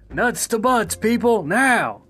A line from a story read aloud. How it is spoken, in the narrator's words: our chief would yell